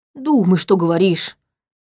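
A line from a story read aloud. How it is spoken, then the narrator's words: Grumbled. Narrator (Russian): буркнул Витал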